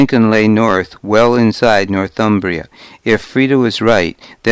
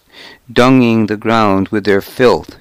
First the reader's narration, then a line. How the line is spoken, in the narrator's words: she said